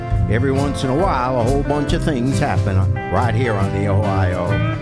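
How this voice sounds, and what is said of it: Stronger Kentucky Ohio River accent. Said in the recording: “my accent suddenly got a little more, a little more Kentucky, a little more the Ohio River”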